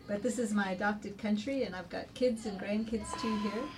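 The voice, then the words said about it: Slight foreign accent. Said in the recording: “You can tell I've got a bit of an accent, still, and that's because I came to South Africa about 34 years ago.”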